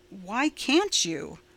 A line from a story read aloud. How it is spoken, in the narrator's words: Roy asked more calmly